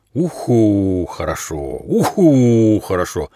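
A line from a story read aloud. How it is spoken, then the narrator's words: Owl hooting. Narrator (Russian): прогудела сова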